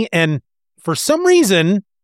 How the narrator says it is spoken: they shout up

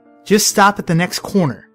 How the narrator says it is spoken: she snaps at me

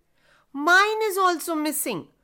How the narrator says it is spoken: shouted another one from behind the tree

